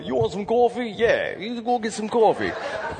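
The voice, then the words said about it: Put-on New Jersey accent. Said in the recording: “as we went back to New Jersey ... Was trying to pick up, you know, the accent that they have”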